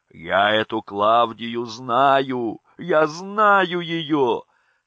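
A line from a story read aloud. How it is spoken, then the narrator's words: Laughing and crying, insistent. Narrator (Russian): Смеясь и плача, доказывала она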